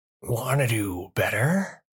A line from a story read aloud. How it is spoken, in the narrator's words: A voice cut in, trying so desperately to be a purr and sounding more like a person choking